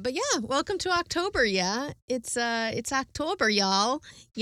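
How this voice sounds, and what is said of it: Mixed Minnesota and Texas accent. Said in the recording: “apparently I'm from Minnesota when I talk about October, yeah ... By way of Texas ... confused accent work”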